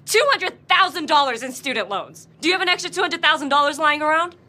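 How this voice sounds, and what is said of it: Very fast, upset speech. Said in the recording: “you're talking really fast.”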